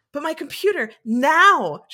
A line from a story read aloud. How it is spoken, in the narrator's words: shouted Claudia